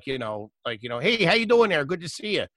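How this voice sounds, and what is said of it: Put-on Chicago-style regional accent. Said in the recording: “they all fucking sound like ... They all have like that. That's fucking garbage too, man. That's Chicago accent.”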